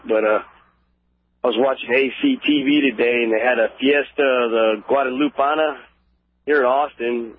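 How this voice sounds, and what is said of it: Rough, unwell-sounding voice. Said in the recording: “My voice is a little messed up. I've been sick”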